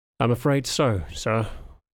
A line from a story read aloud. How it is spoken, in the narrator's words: Johannes sighed